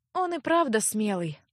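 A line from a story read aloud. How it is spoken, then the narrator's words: Disappointed sigh. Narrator (Russian): огорченно вздохнула Леаттия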